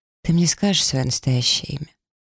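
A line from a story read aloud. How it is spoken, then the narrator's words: Quiet breathless drowsy question. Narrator (Russian): с трудом переводя дыхание и почти засыпая рядом с ним, я тихо спросила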